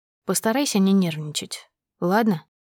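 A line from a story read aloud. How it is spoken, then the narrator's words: Quiet. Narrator (Russian): тихо сказал он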